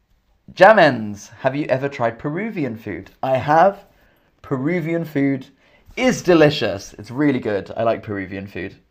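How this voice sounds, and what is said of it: English accent. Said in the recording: “My accent is English. I'm from England. So I have an English accent.”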